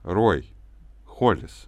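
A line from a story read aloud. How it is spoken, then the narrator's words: Plain. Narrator (Russian): сказал я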